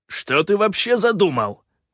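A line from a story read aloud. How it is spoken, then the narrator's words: Irritated bark. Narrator (Russian): раздраженно рявкнул Калаан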